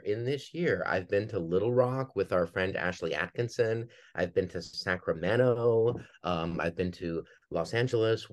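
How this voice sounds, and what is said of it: Minnesota accent, sounds almost Canadian. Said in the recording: “the accent. That's where you're from. ... You're like, is this guy Canadian? That's the accent. ... my home state of Minnesota”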